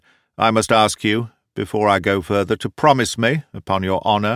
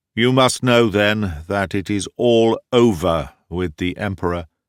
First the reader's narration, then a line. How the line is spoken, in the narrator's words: said he, speaking very slowly, as if he had a hard task in getting out the words